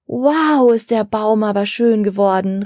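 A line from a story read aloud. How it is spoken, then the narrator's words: Girl calling. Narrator (German): rief eine Mädchenstimme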